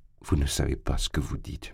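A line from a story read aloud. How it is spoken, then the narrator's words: Frightened murmur. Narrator (French): murmura-t-il avec effroi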